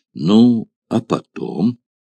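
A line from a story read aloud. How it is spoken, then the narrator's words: Sad, gloomy tone. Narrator (Russian): заданный Спартаком печальным и мрачным тоном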